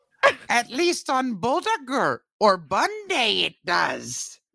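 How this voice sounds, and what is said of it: Awful Yoda impression. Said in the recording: “That's my awful ... Yoda ... impression ... Icelandic Yoda impression.”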